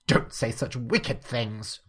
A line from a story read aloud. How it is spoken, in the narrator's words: Cordelia snapped at her